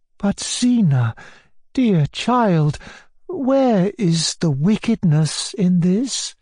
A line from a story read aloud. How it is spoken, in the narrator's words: asked Maria Alexandrovna timidly